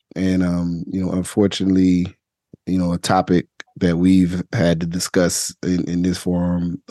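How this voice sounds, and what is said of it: Slightly raspy voice. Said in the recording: “my voice is almost back to normal, but still a little raspy.”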